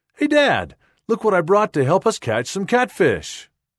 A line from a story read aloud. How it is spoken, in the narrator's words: She excitedly exclaims